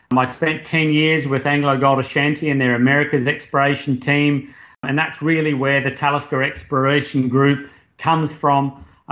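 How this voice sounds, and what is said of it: Australian accent. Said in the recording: “my accent, you'll be able to pick that I'm Australian”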